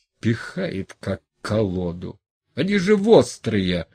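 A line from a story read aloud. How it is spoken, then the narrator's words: Angry grumbling. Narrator (Russian): Макар злой и помятый, ворчал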